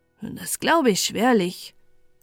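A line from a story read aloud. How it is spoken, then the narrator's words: Plain. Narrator (German): antwortete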